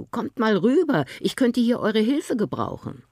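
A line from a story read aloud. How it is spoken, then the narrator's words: Called out. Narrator (German): rief er seinen Brüdern zu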